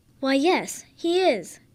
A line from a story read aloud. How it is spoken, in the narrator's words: Bartholomew's mother excitedly replies